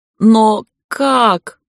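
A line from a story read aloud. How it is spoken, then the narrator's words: Howling. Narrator (Russian): взвыл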